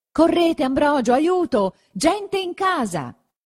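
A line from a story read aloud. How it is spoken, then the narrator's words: Shouted toward someone. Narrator (Italian): gridò verso lui don Abbondio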